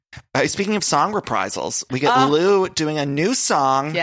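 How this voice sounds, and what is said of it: Usual voice. Nothing is said of it.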